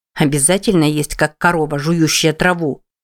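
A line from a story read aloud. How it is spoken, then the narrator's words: Grumbling. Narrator (Russian): проворчала Джен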